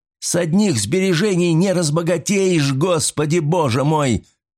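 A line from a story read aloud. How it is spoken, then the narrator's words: Shout. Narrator (Russian): выкрикнул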